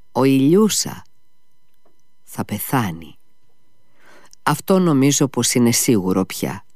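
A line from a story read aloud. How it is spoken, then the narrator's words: Answered sadly. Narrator (Greek): απάντησε λυπημένα ο Αλιώσα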